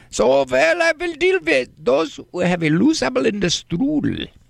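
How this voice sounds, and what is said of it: Put-on German accent. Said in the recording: “I can't do the Australian accent, but I can do the German accent,”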